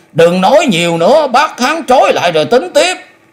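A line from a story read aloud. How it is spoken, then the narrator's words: Loud shout. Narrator (Vietnamese): Hạ Phong cũng quát lớn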